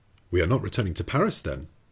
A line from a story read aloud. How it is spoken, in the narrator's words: said Conseil